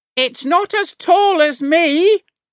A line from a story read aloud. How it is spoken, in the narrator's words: Grandma shouted